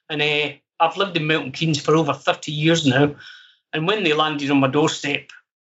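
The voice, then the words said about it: West coast Scottish accent. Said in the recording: “I'm originally from the west coast of Scotland ... So you mentioned the accent, I picked it up straight away ... I'm originally from Ayrshire, in Irvine.”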